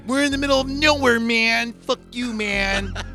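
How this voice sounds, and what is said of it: Laid-back stoned-sounding character voice. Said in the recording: “That's actually a very good impersonation... It's like he's smoking a joint.”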